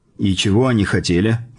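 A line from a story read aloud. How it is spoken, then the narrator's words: Plain. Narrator (Russian): спросил я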